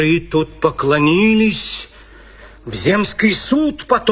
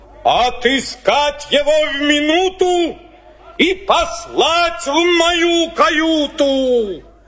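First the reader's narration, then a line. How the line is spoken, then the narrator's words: Angry shout. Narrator (Russian): Кит во гневе закричал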